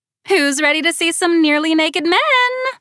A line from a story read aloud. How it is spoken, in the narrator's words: Amber hollered